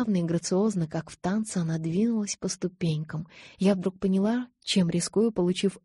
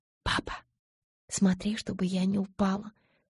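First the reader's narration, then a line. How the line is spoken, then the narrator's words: Whispered. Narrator (Russian): шепнула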